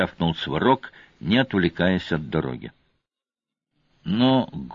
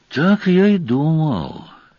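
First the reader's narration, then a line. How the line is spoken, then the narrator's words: Heavy sigh. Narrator (Russian): тяжко вздохнул сварог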